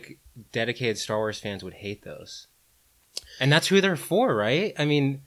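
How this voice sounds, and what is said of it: Usual voice. Nothing is said of it.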